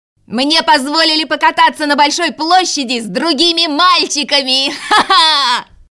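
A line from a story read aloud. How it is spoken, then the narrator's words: Shouted right into ear. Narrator (Russian): Кай крикнул Герде в самое ухо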